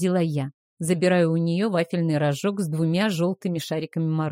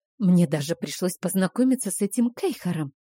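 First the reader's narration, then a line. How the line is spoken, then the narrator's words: Whispered complaint. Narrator (Russian): понизив голос до шепота, пожаловалась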